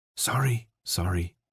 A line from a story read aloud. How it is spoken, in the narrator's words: Newt whispered